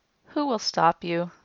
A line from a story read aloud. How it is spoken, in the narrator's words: Lord Garn yawned